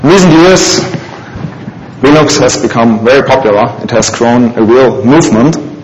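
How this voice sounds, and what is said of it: Non-native English accent. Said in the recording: “this talk will be held in my best imitation of English”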